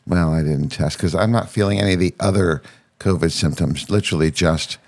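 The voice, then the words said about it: Congested, strained voice. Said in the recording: “my voice is just not with us 100% because of sinus drainage and shit going down my throat ... my voice is like this”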